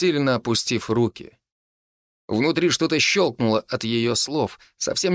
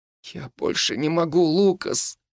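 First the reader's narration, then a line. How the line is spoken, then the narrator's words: Girl moaning. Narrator (Russian): простонала девушка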